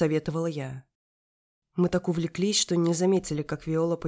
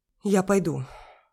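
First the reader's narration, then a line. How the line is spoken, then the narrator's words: Proud breathy reply. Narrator (Russian): гордо выдохнула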